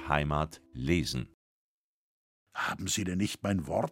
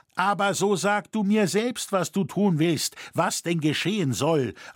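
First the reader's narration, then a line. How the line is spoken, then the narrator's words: Anxious cry. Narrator (German): rief der Bildschnitzer ängstlich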